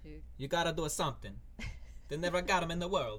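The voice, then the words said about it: Weak put-on Italian accent. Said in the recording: “Do that in your Italian accent. ... That's kind of bad, but you get the idea.”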